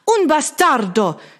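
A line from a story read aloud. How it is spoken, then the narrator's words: Screaming Italian woman. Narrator (German): schrie die Italienerin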